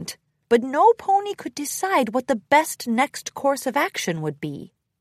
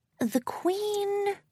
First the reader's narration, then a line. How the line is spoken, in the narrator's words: Twilight mumbled to herself